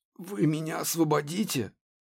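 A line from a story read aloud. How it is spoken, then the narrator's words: Desperate hoarse rasp. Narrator (Russian): Сглотнув слюну, он прохрипел в отчаянии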